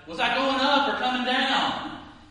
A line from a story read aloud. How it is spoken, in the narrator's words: she shouted